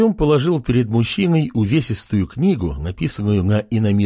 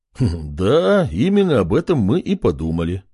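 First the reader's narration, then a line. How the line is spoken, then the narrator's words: Chuckling. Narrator (Russian): хохотнул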